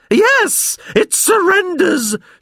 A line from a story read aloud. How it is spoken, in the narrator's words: shrieked Mrs